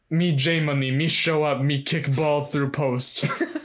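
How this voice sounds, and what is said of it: Caveman-style impression of J Money. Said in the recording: “It's a good impression. ... J Money is a caveman now”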